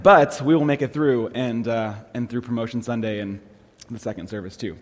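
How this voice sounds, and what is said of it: Slightly congested, allergy-affected voice. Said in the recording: “my voice is a little allergy-y this morning”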